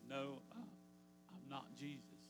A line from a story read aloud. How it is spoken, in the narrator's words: He got a little chuckle, and he said